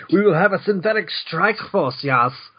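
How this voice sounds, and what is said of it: Put-on German accent. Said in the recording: “I don't know why he suddenly has German accent”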